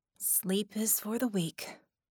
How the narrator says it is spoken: Vickie muttered

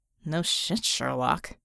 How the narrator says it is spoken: Red muttered

